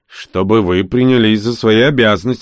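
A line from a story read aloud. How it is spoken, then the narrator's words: Grumbling. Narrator (Russian): проворчал я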